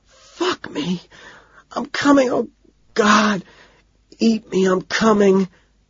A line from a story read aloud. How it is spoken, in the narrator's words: she cries out